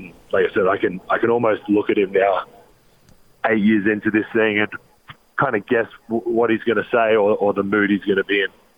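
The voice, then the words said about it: Australian accent. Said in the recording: “Australian accent of the word shoot”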